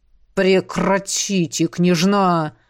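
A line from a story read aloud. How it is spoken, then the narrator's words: Growl. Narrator (Russian): рыкнул Торре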